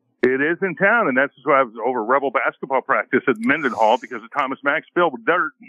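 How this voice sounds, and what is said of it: Usual voice. Nothing is said of it.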